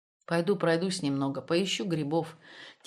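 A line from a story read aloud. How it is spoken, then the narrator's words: Quiet. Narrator (Russian): тихо сказал он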